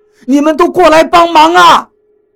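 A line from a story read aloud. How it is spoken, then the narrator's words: Shouting. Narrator (Chinese): 何洛同时冲身后喊道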